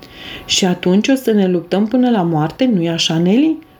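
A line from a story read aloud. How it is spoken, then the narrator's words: Laughing. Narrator (Romanian): răspunse ea râzând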